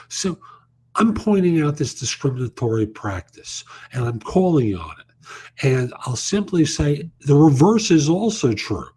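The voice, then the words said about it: New York accent. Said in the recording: “that's a New York accent I've got”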